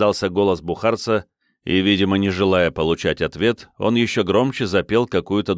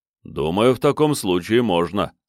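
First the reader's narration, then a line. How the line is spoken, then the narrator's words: Deep bass voice. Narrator (Russian): пробасил маэстро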